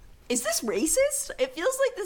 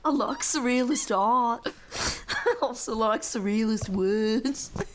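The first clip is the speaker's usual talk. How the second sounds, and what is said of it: Bad put-on Liverpool accent. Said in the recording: “a better Liverpool accent ... say it in an accent ... this accent might be so bad”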